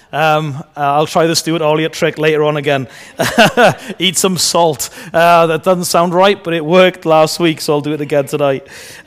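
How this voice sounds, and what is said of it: Voice fading, losing his voice. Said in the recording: “I'm losing my voice a little bit again”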